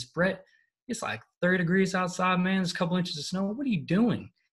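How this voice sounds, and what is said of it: Thick Texas accent. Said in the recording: “he had this really thick Texas accent.”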